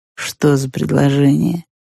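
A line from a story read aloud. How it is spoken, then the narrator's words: Quiet question. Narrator (Russian): тихо поинтересовался бледный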